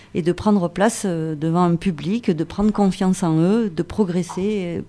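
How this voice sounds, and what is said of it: Singsong southern French accent. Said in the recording (French): “l'accent méridional ... Notre accent, il est chantant, mais il est bien sympathique”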